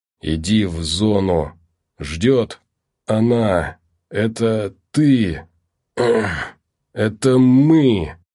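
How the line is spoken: Strained wheeze, choking on blood. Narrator (Russian): выдавил из себя Филонов и захрипел, захлебываясь собственной кровью

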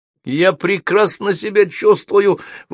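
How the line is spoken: Indignant reply. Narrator (Russian): возмущенно ответила Софи

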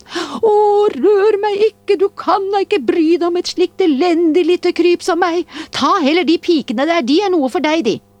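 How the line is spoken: Dwarf crying out. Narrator (Norwegian): dvergen … ropte han

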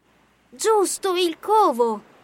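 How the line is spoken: Exclamation. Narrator (Italian): esclamò Craig

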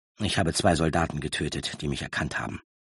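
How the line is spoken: Quiet answer. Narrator (German): antwortete Roran mit leiser Stimme

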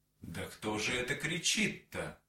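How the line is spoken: Plain. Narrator (Russian): Лошадь сказала

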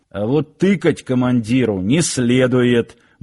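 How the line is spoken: Gruff mutter. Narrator (Russian): буркнул Сошин

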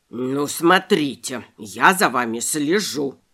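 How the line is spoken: Rabbit grumbling. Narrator (Russian): проворчал кролик

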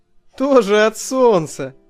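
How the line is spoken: Overly lively laugh. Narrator (Russian): засмеялся я оживленнее, чем надо

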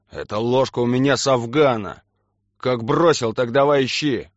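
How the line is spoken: Growled. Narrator (Russian): рыкнул он

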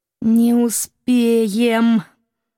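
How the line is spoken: Nervous she-wolf whine. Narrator (Russian): Нервно заскулила волчица

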